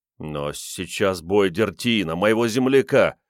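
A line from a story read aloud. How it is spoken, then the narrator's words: Moaning. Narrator (Russian): простонал Риордан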